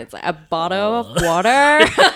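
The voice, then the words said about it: Put-on California accent. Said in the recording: “change into a California accent ... Pretty good. That could pass.”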